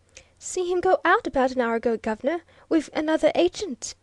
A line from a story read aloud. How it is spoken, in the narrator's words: said the lad eagerly